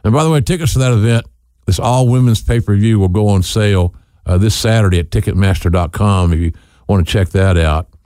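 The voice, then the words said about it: Oklahoma accent. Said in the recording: “It's hard for me with an Oklahoma accent to say Long Island”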